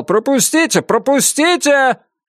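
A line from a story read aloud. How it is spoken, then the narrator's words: Someone shouting. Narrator (Russian): Кто-то кричал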